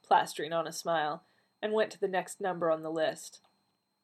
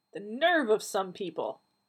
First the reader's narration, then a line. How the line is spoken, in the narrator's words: Donna snapped